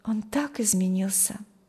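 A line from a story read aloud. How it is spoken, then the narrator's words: Sighing. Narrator (Russian): вздохнула Маргита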